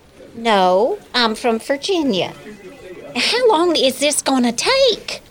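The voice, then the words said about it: Exaggerated Southern US accent. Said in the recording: “your accent is, like, over the top ... Scarlett O'Hara”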